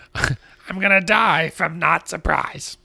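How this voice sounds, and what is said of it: Cartoon parrot character voice. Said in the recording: “That was my Iago impression.”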